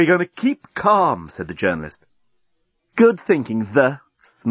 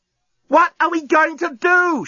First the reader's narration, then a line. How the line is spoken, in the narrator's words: She yelled